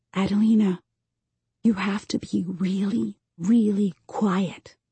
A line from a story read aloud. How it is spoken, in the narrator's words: I whisper